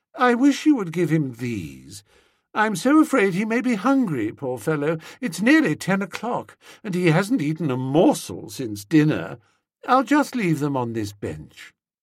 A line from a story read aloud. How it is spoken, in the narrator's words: she said, her eyes resting dreamily